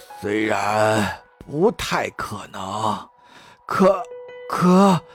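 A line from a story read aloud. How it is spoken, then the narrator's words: Nervous mumble. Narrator (Chinese): 马里乌斯咽了口唾沫，喃喃道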